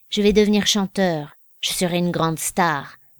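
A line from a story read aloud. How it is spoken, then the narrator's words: Serious and calm. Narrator (French): dit Mito très sérieusement et très calmement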